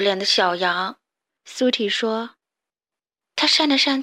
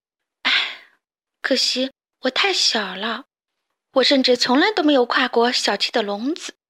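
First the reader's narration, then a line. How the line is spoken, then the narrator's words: Sighing. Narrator (Chinese): 停卡叹了口气，又说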